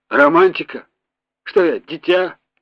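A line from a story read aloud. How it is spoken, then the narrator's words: Scoffing snort. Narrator (Russian): опять хмыкнул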